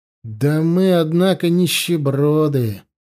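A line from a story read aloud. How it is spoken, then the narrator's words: Sad. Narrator (Russian): сказал, печально Корнел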